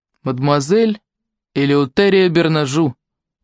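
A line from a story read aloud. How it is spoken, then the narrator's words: Solemn. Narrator (Russian): торжественно произнес Артур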